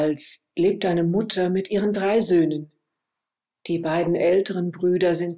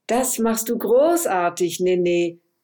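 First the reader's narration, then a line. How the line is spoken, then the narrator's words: Mother calling out. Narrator (German): ruft die Mutter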